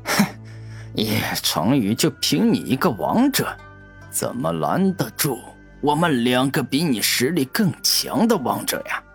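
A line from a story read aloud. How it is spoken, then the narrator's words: Loud mocking laughter. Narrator (Chinese): 玄机子大笑着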